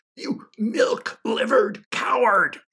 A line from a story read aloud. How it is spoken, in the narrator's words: she cried